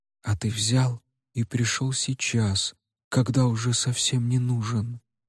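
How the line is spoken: Fading whisper. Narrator (Russian): шепотом продолжил Вэй Чиен, и каждое слово звучало тише предыдущего

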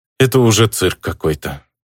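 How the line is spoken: Sad sigh. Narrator (Russian): печально вздохнул я

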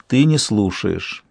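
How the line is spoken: Said sadly. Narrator (Russian): печально сказал он

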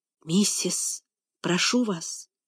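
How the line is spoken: Barely audible whisper. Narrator (Russian): Наконец Том чуть слышно прошептал

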